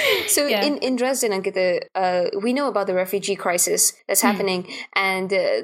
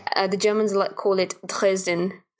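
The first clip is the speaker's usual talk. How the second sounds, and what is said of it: Put-on German accent. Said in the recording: “Said that with a German accent”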